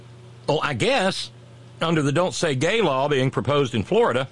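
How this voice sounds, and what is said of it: Usual voice. Nothing is said of it.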